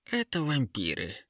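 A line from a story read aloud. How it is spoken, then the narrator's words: Calm. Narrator (Russian): спокойно ответила Ера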